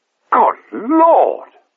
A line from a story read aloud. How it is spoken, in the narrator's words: exclaimed